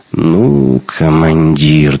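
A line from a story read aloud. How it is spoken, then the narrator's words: Annoyed drawl. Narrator (Russian): досадливо протянул Шибанов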